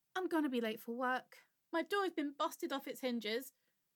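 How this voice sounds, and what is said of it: English accent. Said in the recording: “I have an English accent because I'm English.”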